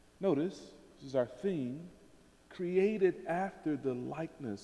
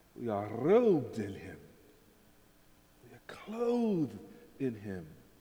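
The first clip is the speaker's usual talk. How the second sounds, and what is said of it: Put-on Wakandan accent, trilled R. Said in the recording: “if I had a Wakandan accent, right? You need to trill the R”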